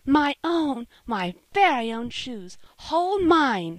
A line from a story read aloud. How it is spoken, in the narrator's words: she cried